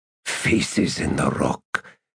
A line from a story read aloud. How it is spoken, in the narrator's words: hissed Karsa Orlong